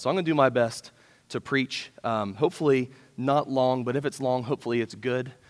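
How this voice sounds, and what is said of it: Rough, congested-sounding voice. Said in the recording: “my voice sounds a little more obnoxious than normal... I've got the old chest cold thing going on”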